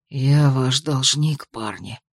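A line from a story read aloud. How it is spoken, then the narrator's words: Hoarse, unfamiliar voice. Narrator (Russian): ответил хрипло, с трудом узнав собственный голос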